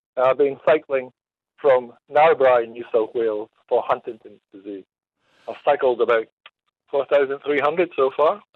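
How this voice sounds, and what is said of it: Scottish accent, Aberdeen. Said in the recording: “I'm just getting used to your accent ... you're Scottish from somewhere back in your past ... Aberdeen”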